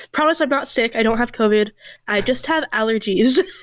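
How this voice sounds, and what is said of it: Stuffy, congested voice. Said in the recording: “I sound a little stuffy.”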